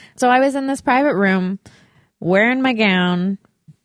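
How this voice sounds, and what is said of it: Usual voice. Nothing is said of it.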